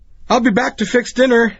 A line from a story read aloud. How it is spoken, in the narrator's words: she shouted joyfully